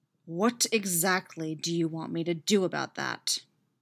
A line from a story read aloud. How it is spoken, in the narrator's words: Derek growls back at him waspishly